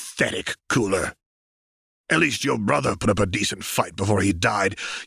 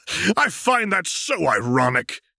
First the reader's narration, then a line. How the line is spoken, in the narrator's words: he shouted